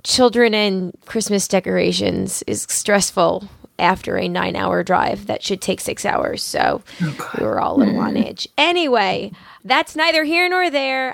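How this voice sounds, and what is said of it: Hoarse, husky, nearly lost voice. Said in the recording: “my voice is a little bit off ... now I have no voice ... my Phoebe Buffay sexy voice”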